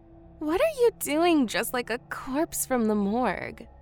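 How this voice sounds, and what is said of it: Heavy intoxicated drawl. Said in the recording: “in a drawl that was accentuated by substance abuse”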